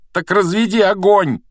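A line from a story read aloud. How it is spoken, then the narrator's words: Breathless shout. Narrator (Russian): крикнул Гарри, задыхаясь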